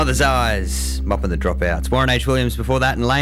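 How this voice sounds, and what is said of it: Usual voice. Nothing is said of it.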